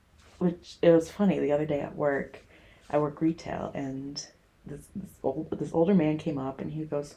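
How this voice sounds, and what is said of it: American Chicago accent. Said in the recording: “that's a little different accent you got there ... I'm from America. I'm from Chicago ... The accent hasn't left ... Oh, no, it hasn't”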